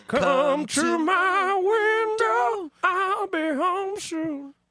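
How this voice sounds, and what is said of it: Sung in a falsetto voice. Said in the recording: “That's a nice falsetto.”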